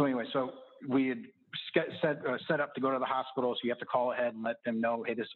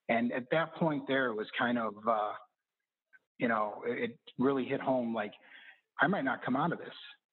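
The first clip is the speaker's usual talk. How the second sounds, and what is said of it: Emotional, choked-up voice. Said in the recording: “I might get a little emotional.”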